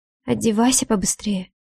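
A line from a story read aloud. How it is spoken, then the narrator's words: Quiet command. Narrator (Russian): велю тихо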